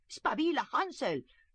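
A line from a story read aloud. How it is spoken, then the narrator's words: Stepmother shouting. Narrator (Spanish): gritó la madrastra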